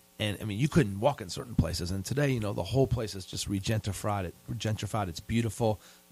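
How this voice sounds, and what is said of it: New York-tinged American accent. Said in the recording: “your accent, so you're from Seneca Park. What's this accent? ... went to college in Philadelphia at Penn, and then lived in New York. So I've kept that accent. For some reason, I can't get rid of it.”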